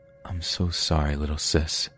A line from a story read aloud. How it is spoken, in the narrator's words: whispering